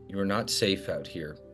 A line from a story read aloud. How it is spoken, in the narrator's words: quietly lean into him and say